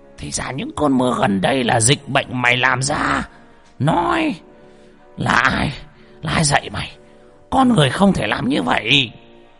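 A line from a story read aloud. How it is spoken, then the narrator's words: Old man's roar. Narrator (Vietnamese): Lão Mo gầm lên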